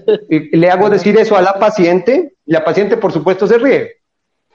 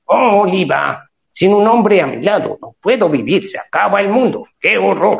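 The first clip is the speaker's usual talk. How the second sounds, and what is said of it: Popeye cartoon character voice. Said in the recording (Spanish): “Ahora la voy a hacer con voz de Popeye.”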